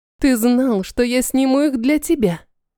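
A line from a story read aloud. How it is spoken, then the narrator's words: Happy laugh. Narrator (Russian): Я счастливо рассмеялась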